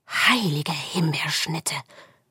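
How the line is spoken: Whispered. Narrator (German): flüsterte Flo

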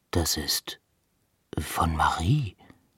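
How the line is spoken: Whisper. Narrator (German): flüsterte Pitt

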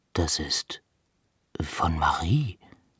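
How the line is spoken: Whispering. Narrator (German): flüsterte Pitt

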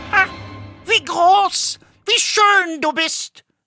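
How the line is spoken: Calling out. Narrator (German): rief sie

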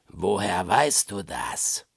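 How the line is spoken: Dangerous murmur. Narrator (German): raunte es gefährlich durch die Haare

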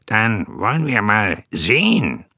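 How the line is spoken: Giggled. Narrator (German): Henry kicherte

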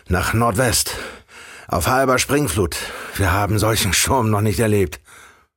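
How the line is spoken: Called out. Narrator (German): rief er

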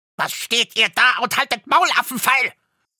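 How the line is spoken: Furious dwarf scream. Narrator (German): schrie der Zwerg, und sein aschgraues Gesicht war zinnoberrot vor Zorn

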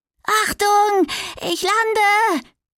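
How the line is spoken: Calling out. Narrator (German): rief

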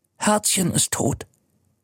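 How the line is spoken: Whispered. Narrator (German): flüstert er

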